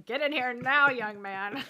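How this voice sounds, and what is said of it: Stern teacher voice. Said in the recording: “putting on my teacher voice.”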